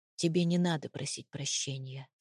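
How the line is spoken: Muffled, hollow voice. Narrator (Russian): сказал глухо

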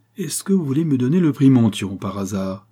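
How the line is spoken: Sneering laugh. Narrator (French): dit-il en ricanant

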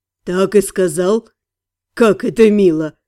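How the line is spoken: Snort. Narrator (Russian): Фыркнул Фарен

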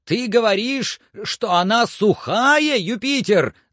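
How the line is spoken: Shouting, breaking voice. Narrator (Russian): закричал Легран прерывающимся голосом

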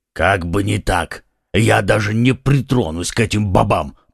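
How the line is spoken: Muttering to himself. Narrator (Russian): пробурчал про себя Портос

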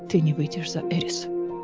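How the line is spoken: Hoarse. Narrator (Russian): хрипло произнес он

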